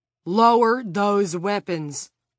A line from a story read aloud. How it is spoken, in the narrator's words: Frank shouted